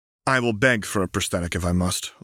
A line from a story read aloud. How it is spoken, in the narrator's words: Lux said flatly